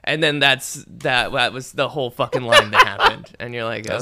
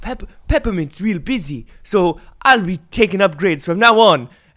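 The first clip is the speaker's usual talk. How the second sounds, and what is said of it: Impression of Macron. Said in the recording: “That's a pretty good Macron impression.”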